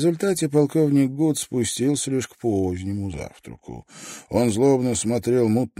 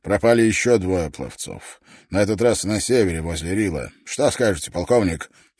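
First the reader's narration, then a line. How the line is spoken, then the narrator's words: Snorting with mouth full. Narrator (Russian): хмыкнул он, засовывая в рот ложку каши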